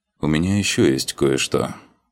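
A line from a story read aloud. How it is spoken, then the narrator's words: Sighing. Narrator (Russian): вздохнул я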